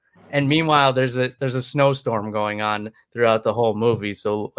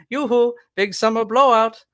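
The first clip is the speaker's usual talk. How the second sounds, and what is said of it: Stereotypical Norwegian accent. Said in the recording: “a Norwegian accent ... very, very stereotypical Norwegian-sounding dude”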